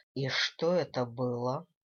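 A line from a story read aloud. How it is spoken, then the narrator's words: Ominous question. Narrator (Russian): зловещим тоном спросил Дэниел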